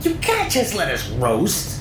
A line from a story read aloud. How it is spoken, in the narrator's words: Nick squealed